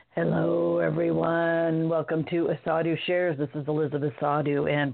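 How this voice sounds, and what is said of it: Hoarse, froggy voice. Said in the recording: “pardon my voice, I'm a little froggy today”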